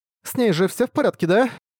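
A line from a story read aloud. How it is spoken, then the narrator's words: Trembling voice. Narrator (Russian): Дрожащим голосом произнесла Силк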